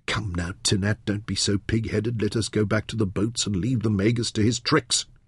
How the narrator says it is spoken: muttered to himself under his breath

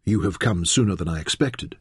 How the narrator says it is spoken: she said softly

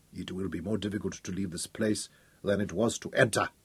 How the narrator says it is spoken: Abelly said grimly

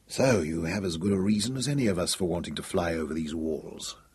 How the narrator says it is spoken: Hal murmured

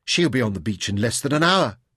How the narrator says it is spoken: whispered to himself

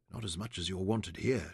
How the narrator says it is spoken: murmured with drowsy contentment

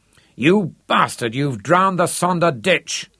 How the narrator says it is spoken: roared Harry

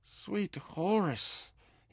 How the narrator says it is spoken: he cried

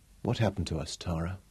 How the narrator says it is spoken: asked softly

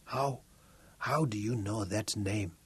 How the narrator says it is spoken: He whispered

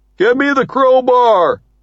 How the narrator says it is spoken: Shafto shouts

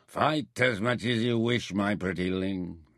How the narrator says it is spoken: he slurred

